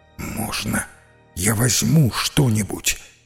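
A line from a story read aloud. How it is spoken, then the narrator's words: Whisper. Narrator (Russian): прошептал Эван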